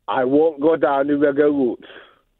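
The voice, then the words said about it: Speaks in a put-on accent. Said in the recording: “With the accent as well.”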